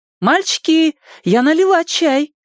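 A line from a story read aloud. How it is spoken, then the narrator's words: Cheerful call from afar. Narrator (Russian): весело крикнула с крыльца мать Ричи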